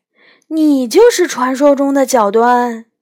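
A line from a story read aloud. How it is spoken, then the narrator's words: Screaming. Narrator (Chinese): 我尖叫起来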